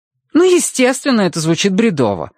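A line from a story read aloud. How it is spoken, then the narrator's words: Exclamation. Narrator (Russian): воскликнул Соня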